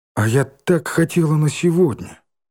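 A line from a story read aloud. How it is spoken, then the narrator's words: Sad sigh. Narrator (Russian): печально вздохнула Ленка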